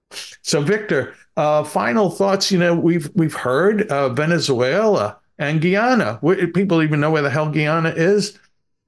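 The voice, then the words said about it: Bronx New York accent. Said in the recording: “my Bronx accent is coming out a little more”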